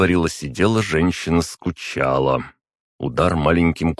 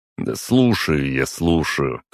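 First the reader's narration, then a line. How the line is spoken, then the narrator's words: Dismissive snort. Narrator (Russian): хмыкнул я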